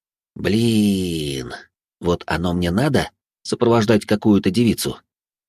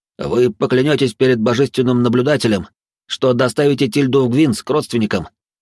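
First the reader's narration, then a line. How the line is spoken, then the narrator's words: Rapid chatter. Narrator (Russian): затараторил Вольд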